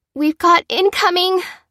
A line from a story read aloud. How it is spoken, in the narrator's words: cried Fliss